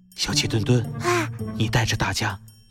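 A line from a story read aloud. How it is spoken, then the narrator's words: Whisper. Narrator (Chinese): 小声地对小鸡墩墩说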